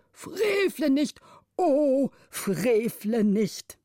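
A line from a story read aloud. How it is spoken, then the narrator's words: Tearful old man's cry. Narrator (German): der älteste Vormund mit Tränen auf den speckigen Wangen rief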